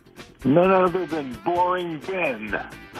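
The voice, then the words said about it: Disguised fake voice. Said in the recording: “doing a fake voice”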